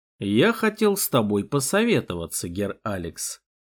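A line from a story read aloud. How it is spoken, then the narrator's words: Serious tone. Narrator (Russian): серьезным тоном сказал граф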